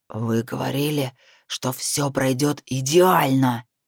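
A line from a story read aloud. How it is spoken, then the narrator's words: Hissing. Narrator (Russian): буквально шипел Натаниэль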